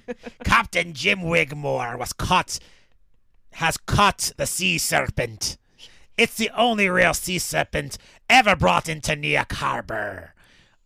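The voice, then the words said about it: Put-on sea captain character voice. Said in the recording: “read in his voice ... I don't know what this accent is.”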